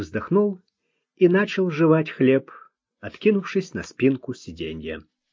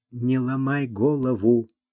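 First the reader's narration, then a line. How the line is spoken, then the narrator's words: Whispering. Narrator (Russian): шепнул ему Луи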